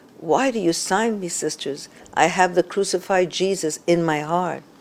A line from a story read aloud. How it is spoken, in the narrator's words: she gently but firmly protested over and over again